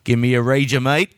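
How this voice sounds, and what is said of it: Poor put-on Australian accent. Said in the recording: “my awful Australian accent.”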